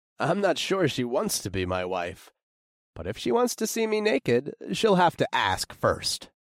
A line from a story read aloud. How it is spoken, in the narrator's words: I laughed